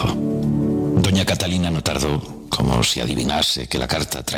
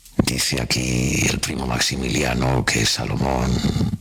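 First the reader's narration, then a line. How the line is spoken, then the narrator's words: Murmuring. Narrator (Spanish): Don Juan III murmuró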